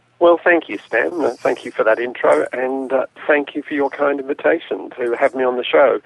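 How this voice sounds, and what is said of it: Australian accent. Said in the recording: “the Aussie accents ... that accent of yours, someday we'll teach you how to speak proper English”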